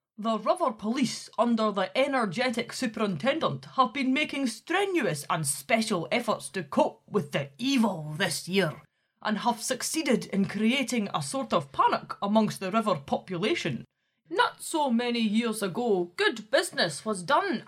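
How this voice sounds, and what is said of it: Put-on Dundonian Scottish accent. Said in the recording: “can you be Dundonian? ... I've been working on my accent”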